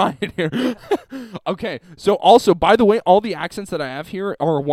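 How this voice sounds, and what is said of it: Usual voice. Nothing is said of it.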